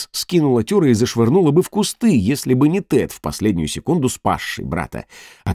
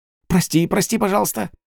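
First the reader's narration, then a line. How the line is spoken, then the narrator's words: Whisper. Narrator (Russian): прошептал Тюре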